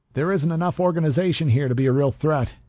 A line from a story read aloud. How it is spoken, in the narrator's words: I said, raising my voice to compete with the crowd